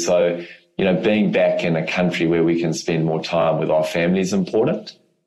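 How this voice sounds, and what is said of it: South African accent. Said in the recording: “I am from Africa originally, so I still obviously speak with a South African accent”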